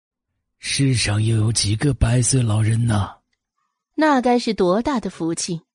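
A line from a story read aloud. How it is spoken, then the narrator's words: Long sigh. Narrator (Chinese): 凤追不由一声长叹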